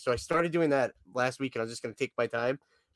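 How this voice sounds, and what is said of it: Sick, slightly congested voice. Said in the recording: “you sound sick ... with your little bit of nasal congestion, it's not in a nasally voice, but it's like this ... soothing”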